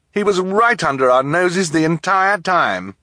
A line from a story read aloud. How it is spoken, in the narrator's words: Count Olaf sneer at the children